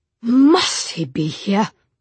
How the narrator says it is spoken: Gabriel growled to Tessa

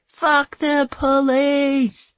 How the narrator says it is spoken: A couple of defiant cries of

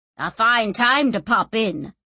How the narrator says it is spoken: snapped Orso

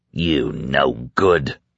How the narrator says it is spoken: snarled

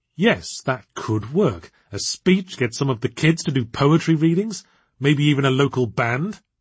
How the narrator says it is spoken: excitedly

